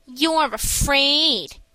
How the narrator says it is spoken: sneered Mickey

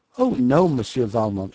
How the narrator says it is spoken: she replied with a bright laugh

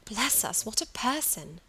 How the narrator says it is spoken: sighed Margaret

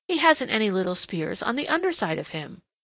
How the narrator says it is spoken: exclaimed

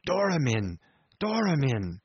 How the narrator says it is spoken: He had just breath enough to gasp out

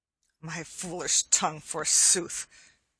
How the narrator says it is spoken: growled Little John to Arthur a Bland

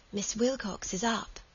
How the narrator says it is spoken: the child whispered, and then became unintelligible

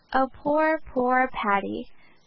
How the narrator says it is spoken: said tender-hearted Cecily tearfully

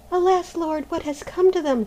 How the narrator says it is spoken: cried Maruschka, peering anxiously

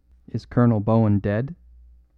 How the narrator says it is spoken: said the smith quite calmly

